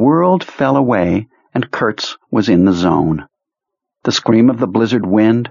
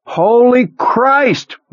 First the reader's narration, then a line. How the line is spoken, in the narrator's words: one of the men shouted